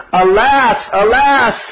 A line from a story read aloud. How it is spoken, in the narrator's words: They started crying out very loudly